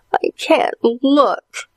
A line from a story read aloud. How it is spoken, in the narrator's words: whimpered his sister Allison